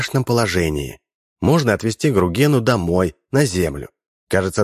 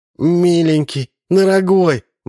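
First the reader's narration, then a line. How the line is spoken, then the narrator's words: Bride pleading. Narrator (Russian): взмолилась невеста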